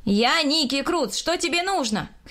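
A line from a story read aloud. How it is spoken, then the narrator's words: Shouting. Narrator (Russian): крикнул я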